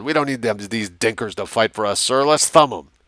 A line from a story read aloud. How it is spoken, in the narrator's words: The gunner manning the heavy machine gun on the APC growled